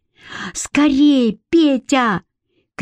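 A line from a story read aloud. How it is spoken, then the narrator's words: Shouted from the yard. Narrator (Russian): крикнул со двора Митька Папуас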